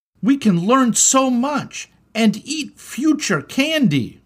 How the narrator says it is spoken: cried Malachi

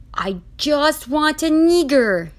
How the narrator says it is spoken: he yelled

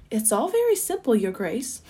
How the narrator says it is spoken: the giraffe replied

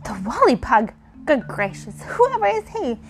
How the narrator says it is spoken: exclaimed Girlie

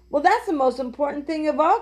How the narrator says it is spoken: cried Jesse

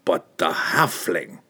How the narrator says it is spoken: Pook growled

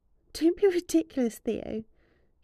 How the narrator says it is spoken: she purred up at him in reply

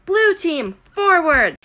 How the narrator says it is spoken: Annabeth yelled

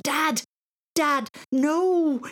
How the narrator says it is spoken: screamed

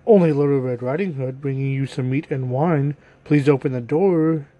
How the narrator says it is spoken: replied the wolf

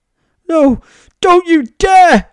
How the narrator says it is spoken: she yelled

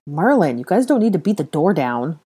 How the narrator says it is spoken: Ron grumbled with a sour look on his face

